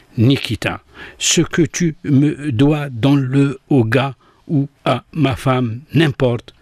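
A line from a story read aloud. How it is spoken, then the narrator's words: Halting labored voice. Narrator (French): prononça avec difficulté, d'une voix saccadée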